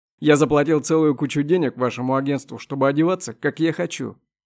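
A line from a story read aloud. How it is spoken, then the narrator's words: Loud. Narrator (Russian): громко ответил Вахидов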